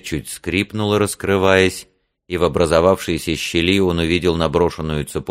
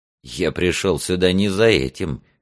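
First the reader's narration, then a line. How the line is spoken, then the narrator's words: Scoffing. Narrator (Russian): хмыкнул Альфред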